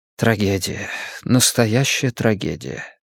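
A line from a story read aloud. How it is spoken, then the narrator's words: Quiet. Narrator (Russian): тихо произнес Риттер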